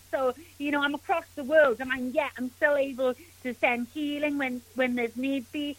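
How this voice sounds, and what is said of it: Welsh accent. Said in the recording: “as you can tell by my accent, my family are from Wales.”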